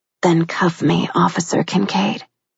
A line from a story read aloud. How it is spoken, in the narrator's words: she said huskily